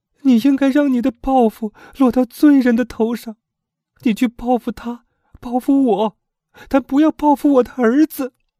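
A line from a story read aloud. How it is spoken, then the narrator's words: Weeping mother. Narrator (Chinese): 那可怜的母亲哭道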